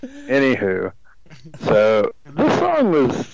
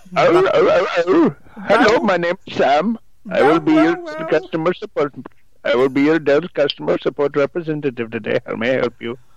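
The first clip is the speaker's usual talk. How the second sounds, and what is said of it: Put-on Indian accent. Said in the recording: “How do I bark in an Indian accent?”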